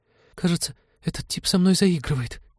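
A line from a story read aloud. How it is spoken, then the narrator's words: Trembling complaint. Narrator (Russian): дрожащим голосом пожаловалась Полина Теду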